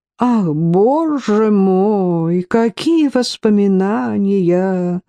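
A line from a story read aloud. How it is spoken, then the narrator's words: Sing-song. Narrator (Russian): проговорил Магнус как-то нараспев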